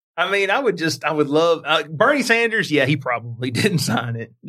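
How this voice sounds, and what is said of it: Usual voice. Nothing is said of it.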